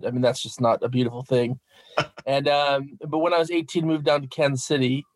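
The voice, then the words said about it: American accent. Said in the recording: “I'm American, you can hear by my accent... I grew up in Minnesota and really tried to get rid of that accent”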